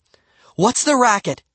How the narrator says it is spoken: she cried

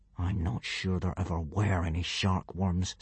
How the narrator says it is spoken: said Hiccup through gritted teeth

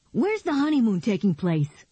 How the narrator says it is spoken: Paul asked excitedly

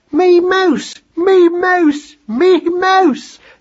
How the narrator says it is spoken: they screamed, until, tiring of the joke

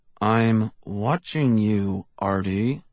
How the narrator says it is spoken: he said through clenched teeth

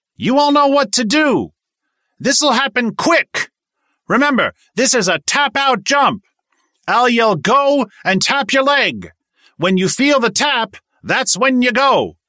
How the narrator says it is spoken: He yelled above the din

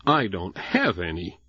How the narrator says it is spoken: Jessie sneered

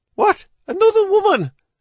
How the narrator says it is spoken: Her cry came out as half-sob, half-shriek, and fully Irish

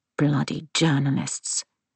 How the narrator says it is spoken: he mutters under his breath

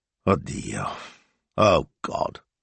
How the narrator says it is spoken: Signor Speranza muttered

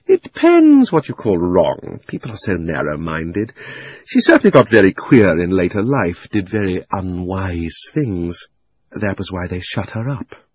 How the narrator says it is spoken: said Uncle Andrew with a chuckle

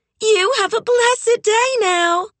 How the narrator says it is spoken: Beulah called out

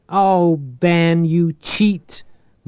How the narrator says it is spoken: Maria screeched

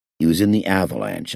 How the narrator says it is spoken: I said

